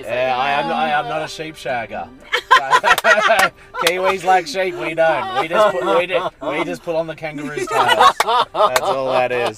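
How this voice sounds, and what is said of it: Australian accent. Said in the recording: “Your flavor of accent, I'm going to guess, is Aussie? ... You got it.”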